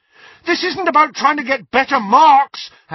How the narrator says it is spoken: Harry shouted at her

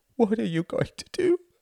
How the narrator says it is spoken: wailed his mother

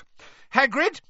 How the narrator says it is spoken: Hermione shouted

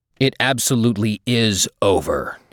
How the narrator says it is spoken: he boomed, considerable authority in his voice

